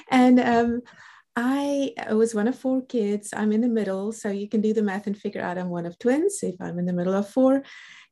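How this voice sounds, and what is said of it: South African English accent. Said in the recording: “I'm a South African born. That's the reason for the accent.”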